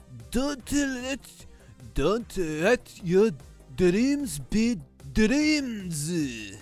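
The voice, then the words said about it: Exaggerated stereotypical Japanese accent. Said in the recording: “Japanese accent... Japanese accent. Outrageously stereotypical and offensive Japanese accent”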